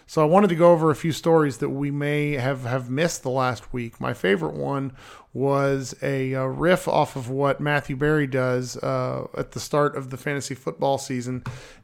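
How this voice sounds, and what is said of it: Sick, rough-sounding voice. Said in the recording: “I've been not feeling the best, as you guys can tell in my voice ... I've just sounded terrible”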